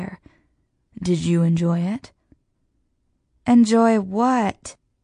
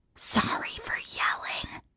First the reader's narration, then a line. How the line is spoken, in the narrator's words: I whisper loudly